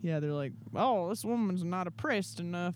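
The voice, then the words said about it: Put-on accent. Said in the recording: “I should not have done that accent.”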